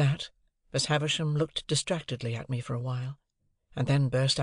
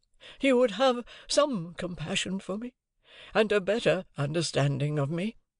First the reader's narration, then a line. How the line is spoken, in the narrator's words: she pleaded